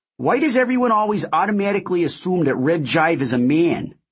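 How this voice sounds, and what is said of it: Woman's thick Fargo-esque accent. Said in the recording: “A woman asked in a thick, Fargo-esque accent.”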